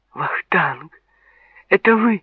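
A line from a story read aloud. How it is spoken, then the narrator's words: Cried out. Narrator (Russian): вскрикнула Тинатин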